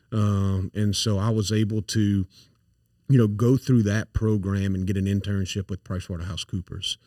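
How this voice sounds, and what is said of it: Thick south Louisiana accent. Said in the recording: “I grew up in St. Landry Parish, so I've got a thick accent”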